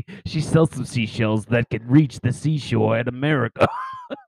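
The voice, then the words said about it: Raspy smoker-like character voice. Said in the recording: “It makes me sound like I smoke a pack a day... It's really getting in my gills.”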